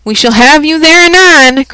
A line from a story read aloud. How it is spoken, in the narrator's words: cried the witch lady, frowning